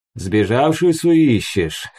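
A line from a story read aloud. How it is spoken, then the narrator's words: Chuckling. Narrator (Russian): хохотнул он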